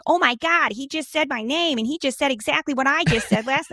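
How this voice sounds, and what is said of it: Nick Fuentes impression. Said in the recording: “my Nick Fuentes impression... It's pretty good... good... His voice is so great.”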